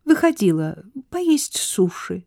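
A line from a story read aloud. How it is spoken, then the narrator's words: Calm. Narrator (Russian): спокойно ответила Сара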